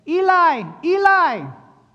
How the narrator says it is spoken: cried out in Aramaic

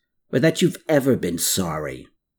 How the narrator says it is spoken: Klaus snapped

